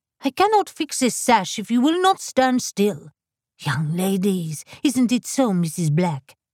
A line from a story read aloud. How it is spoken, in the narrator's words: Madame Lefevre snapped